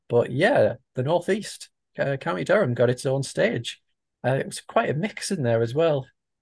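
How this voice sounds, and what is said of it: Northeast English accent. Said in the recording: “my accent is indeed from Biker Grove ... someone born in County Durham”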